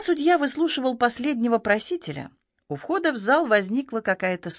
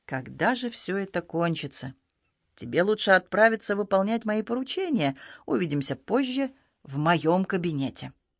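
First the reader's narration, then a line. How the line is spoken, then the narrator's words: Quiet. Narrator (Russian): Судья Ди тихо сказал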